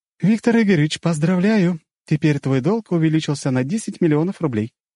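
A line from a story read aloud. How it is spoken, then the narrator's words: Cheerful. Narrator (Russian): весело сказала Ольга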